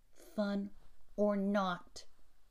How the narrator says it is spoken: said the Easterner

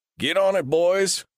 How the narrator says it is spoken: Hyde Tanner bellowed

